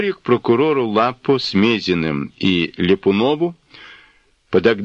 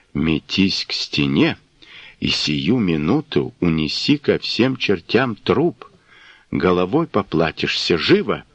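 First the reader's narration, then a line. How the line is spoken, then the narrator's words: Quick whisper. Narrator (Russian): Потылицын успел шепнуть Коростылеву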